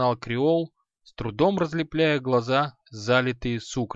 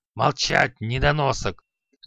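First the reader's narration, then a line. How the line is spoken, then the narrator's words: Angry growl. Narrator (Russian): зарычал Халай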